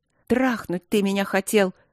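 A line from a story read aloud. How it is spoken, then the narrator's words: Angry, hurled words. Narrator (Russian): Зло бросила она ему в лицо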